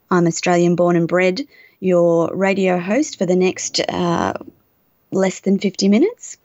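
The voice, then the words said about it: Australian English accent. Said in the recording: “The accent is Australian, and sometimes we're a little difficult to understand.”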